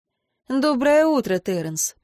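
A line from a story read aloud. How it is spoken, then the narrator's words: Dry greeting. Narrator (Russian): поздоровалась сухо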